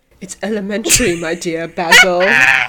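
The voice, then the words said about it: Impression of Sherlock Holmes. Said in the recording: “That's my impression of Sherlock.”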